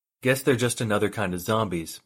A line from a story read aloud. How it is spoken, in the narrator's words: Parsons said